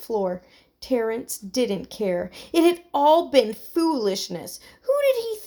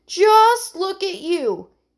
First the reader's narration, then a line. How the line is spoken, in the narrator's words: he exclaimed